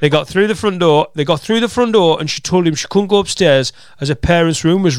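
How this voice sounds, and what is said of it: Usual voice. Nothing is said of it.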